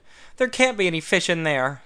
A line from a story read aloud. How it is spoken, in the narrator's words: he exclaimed with disappointment